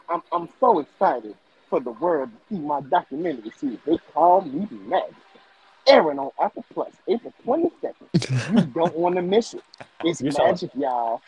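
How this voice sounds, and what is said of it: Magic Johnson impression, sounds like Dusty Rhodes. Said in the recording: “Can I read it in Magic voice? ... You sound like Dusty Rhodes.”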